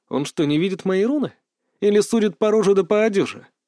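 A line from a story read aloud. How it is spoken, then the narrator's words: Yell. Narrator (Russian): Я заорал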